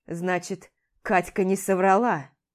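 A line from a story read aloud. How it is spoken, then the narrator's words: Angry grunt. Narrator (Russian): Зло хмыкает он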